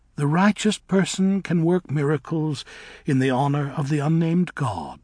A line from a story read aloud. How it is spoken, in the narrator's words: said Nessa Rose calmly